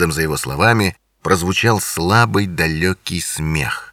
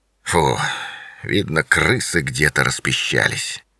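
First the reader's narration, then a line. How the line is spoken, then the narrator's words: Grumbling. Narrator (Russian): пробурчал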